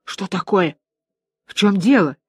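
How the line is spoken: Whispered. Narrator (Russian): Все шепотом

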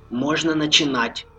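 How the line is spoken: Whisper into microphone. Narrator (Russian): шепнул Влад в микрофон

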